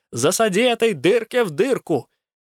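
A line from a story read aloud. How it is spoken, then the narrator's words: Yelling repeatedly. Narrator (Russian): все орал Руку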